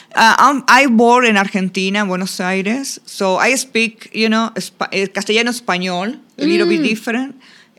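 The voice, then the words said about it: Distinctive Argentine Spanish accent. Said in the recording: “you do have a very distinctive accent.”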